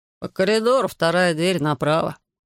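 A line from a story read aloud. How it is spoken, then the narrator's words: Sleepy reply. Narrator (Russian): сонно ответил тот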